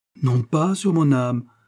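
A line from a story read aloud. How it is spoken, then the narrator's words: Exclaimed. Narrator (French): s'écria Lord Mucklebury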